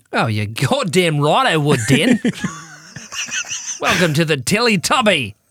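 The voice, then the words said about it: Put-on Australian accent. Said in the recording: “would you do it in an Australian accent?”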